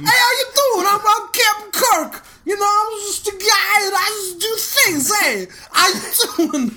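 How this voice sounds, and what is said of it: Brooklyn-style character impression. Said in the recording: “I'm just the guy from Brooklyn. ... my Captain Kirk impression, as played by John Travolta.”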